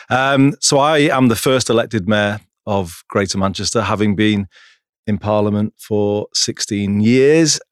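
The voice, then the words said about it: Northwest English drawl. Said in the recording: “my no man's land northwest drawl”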